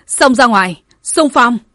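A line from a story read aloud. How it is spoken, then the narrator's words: Wounded woman's joyful shout. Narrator (Vietnamese): Nữ tướng lãnh dẫn đầu vết thương đầy người gặp được Lam Sơn Hầu, nàng vui mừng hét lên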